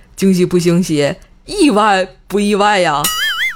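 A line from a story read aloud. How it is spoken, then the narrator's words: Smiling. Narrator (Chinese): 老公……面带笑容对她说道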